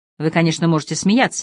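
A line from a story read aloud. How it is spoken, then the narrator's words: Sharp, curt. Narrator (Russian): резко произнес Пэт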